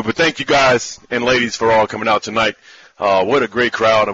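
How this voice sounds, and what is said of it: Hoarse voice. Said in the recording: “this is my game voice after a game because I'm a little hoarse”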